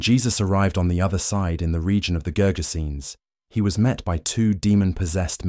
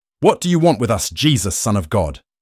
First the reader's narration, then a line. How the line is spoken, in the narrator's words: they shouted